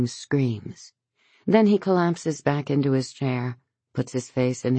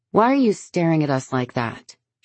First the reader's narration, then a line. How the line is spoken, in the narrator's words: she says to Henry at last, her voice sharp